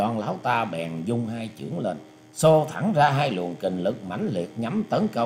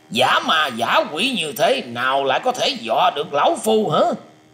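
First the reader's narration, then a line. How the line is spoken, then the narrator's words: Fierce old man shouting. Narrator (Vietnamese): lão già mặt vàng quát to lên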